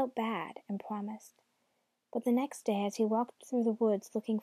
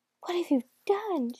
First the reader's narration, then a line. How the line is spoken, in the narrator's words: she cried